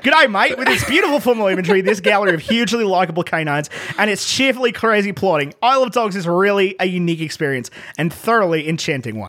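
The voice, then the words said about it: Put-on Australian accent. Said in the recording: “a truly awful Australian accent ... Normally, I'm decent at that. I don't think I just nailed it, but it's not the worst I've ever done.”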